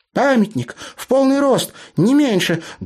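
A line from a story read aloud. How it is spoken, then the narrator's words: Loud whisper. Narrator (Russian): громко шепнула Тася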